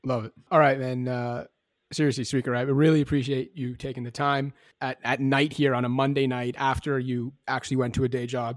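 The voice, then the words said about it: Raspy, strained voice. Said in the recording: “Mind my raspy voice. My voice is not cooperating right now”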